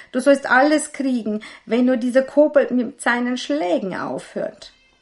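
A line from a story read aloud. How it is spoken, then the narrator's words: Innkeeper wailing. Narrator (German): jammerte der Wirt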